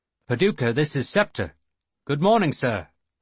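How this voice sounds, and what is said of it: Put-on English accent. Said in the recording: “He was speaking in an English accent.”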